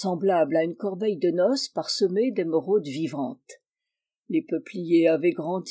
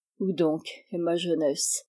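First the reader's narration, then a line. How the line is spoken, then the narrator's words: Sad self-questioning. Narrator (French): se demanda tristement Anton Petrovitch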